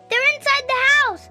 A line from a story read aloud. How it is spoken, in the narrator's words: Rose yelled